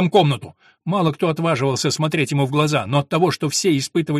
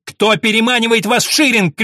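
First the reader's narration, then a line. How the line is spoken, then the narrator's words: Shouting. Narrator (Russian): кричал он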